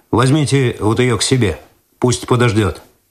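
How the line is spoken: Curt command. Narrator (Russian): Цветков отрывисто приказал

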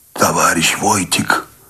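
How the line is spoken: Hoarse, strained. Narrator (Russian): Человек прохрипел, не бросая ноши

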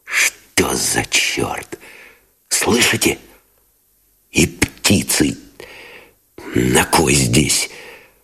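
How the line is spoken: Whispered cursing. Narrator (Russian): шепотом выругался Новиков

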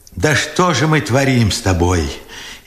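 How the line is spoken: Furious tearful question. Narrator (Russian): яростно сквозь слезы спрашивал Бережной

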